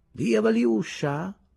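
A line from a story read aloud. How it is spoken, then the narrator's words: Languid effeminate boy's voice. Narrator (Italian): Un sudicio ragazzetto … dice con voce languida ed effeminata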